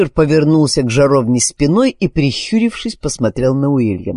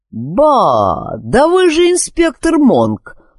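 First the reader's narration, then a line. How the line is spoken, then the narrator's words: Surprised exclamation. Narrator (Russian): удивленно воскликнул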